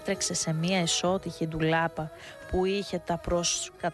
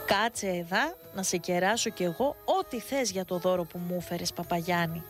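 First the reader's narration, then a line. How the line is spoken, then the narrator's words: Bewildered, awkward smile. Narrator (Greek): Ο καπετάνο Δημήτρης σαστισμένος από την αντίδραση του ιερωμένου, χαμογέλασε λίγο αμήχανα και είπε στον παπά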